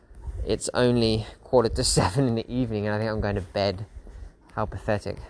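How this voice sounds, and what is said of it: Tired, worn-out voice. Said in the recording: “I'm absolutely knackered, as you can probably tell in my voice. ... I'm just tired, man.”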